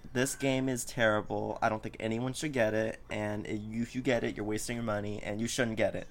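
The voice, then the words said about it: Sarcastic delivery. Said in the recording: “I'm clearly being sarcastic.”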